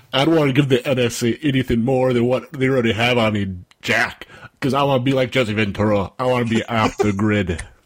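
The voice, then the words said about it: Imitates another person's voice. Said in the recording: “your Jesse Ventura impression is impeccable.”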